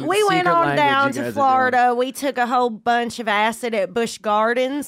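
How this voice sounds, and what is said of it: Put-on Southern US accent. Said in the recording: “What is this southern accent you guys keep going into? ... we started talking this accent, and we're both sort of stuck in it.”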